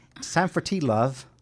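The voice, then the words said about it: Attempted British accent. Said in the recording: “I can't do a British accent, so I'm going to try to say”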